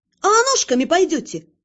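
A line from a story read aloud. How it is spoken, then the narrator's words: Snapping back. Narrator (Russian): огрызнулась я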